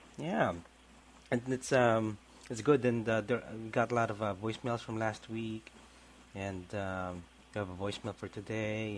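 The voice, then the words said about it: Congested, sick-sounding voice. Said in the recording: “you've been sounding horrible ... I'm a little bit congested still”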